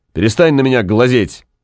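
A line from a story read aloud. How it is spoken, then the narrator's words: Angry. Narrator (Russian): сердито сказал он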